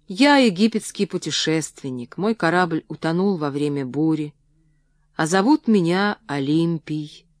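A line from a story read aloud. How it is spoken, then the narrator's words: Plain. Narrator (Russian): ответил я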